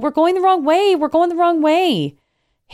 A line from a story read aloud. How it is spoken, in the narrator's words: I yell